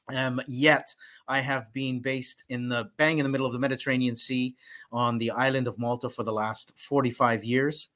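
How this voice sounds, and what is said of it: Canadian Toronto accent. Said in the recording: “you're hearing me speak with an accent that is originally from Toronto, Canada”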